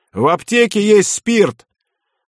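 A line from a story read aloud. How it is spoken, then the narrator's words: Shouted out. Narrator (Russian): Кто-то выкрикнул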